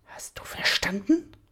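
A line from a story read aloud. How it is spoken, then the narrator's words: Impatient hiss. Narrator (German): zischte er voller Ungeduld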